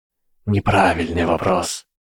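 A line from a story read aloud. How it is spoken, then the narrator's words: Whisper from dark mist. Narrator (Russian): раздался шепот из черной дымки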